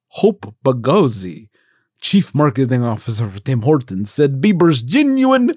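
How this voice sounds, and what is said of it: Usual voice. Nothing is said of it.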